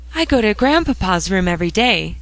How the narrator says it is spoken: said Phronsie, in a distressed tone

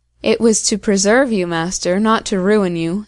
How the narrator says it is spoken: answered Morgiana

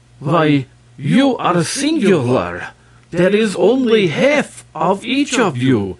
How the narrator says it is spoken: exclaimed the two men together

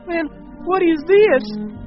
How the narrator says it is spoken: Bill shrieked, horrified

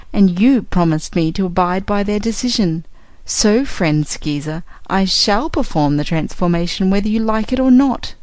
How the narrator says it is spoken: said the Yookoohoo, laughing in his face

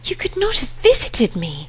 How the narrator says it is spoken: she cried, looking aghast

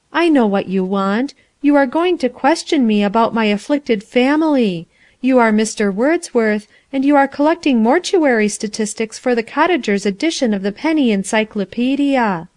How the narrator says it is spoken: said the girl sadly

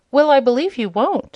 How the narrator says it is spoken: exclaimed Dorothy

